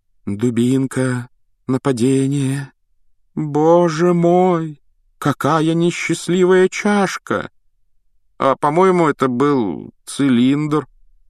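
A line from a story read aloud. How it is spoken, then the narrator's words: Uncertain drawl. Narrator (Russian): неуверенно протянул Рон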